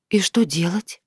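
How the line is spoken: Barely audible, apprehensive girl. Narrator (Russian): еле слышно спросила девушка, понимая, что любой его вариант ей не понравится

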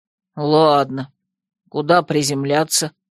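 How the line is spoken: Through clenched lips. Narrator (Russian): Не разжимая губ, я снова процедила

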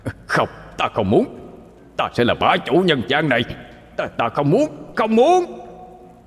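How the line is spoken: Demon's resentful howl. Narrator (Vietnamese): Con quỷ không cam tâm mà gào lên

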